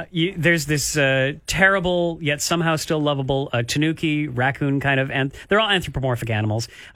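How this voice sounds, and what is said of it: New Zealand accent. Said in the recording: “Did you say decorate? ... You say decorate. ... New Zealand accent, I get it.”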